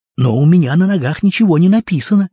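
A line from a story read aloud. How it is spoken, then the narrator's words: Naive exclamation. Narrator (Russian): наивно воскликнул древний поэт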